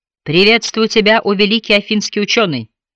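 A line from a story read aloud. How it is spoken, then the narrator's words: Plain. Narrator (Russian): сказал Бастер Рот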